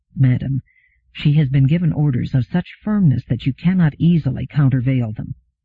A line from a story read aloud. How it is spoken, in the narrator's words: Daniil said to Gladia softly